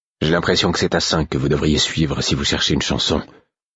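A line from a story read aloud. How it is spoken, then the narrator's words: Indignant mutter. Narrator (French): marmonnai-je, révolté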